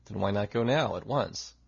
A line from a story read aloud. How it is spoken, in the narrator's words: He sighed